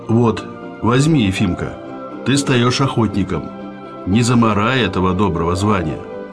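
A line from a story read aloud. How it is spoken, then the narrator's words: Plain. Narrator (Russian): сказал Калистрат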